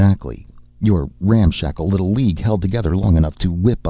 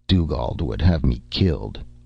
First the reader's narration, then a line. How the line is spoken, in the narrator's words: Joffrey said bitterly